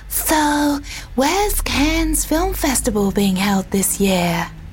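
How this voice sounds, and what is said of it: Imitates a woman's voice. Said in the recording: “I'll do it in what I think she sounds like... It sounded like Marilyn Monroe”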